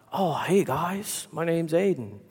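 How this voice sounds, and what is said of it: Surfer dude accent. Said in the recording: “the most surfer dude accent”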